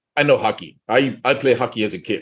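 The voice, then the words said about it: Put-on Russian accent. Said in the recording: “He's got the Russian accent.”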